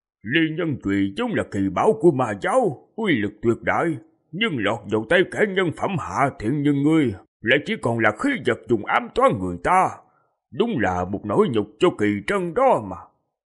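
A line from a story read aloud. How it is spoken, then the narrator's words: Old man muttering to himself. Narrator (Vietnamese): Lão nhân khô cằn kia lẩm bẩm tự nói với mình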